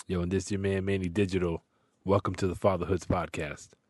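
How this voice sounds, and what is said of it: Unusually deep, husky voice. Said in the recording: “I'm a little sick, so my voice is a little bit more Barry White today.”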